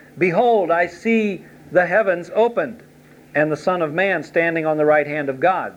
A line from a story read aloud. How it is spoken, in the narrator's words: Stephen cried out